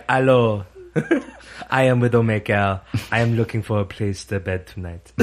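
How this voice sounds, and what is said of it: Put-on French accent. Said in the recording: “she'll be using her French accent”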